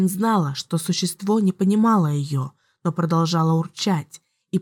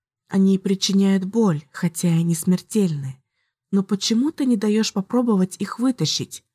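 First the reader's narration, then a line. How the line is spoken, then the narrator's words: Cooing. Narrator (Russian): проворковала она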